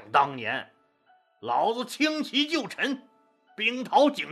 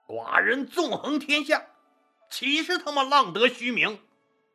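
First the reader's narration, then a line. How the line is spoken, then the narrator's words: Angry. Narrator (Chinese): 英布当时就怒了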